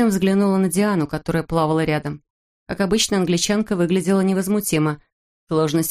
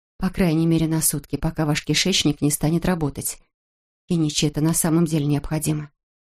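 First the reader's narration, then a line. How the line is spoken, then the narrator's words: Quiet. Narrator (Russian): тихо добавила она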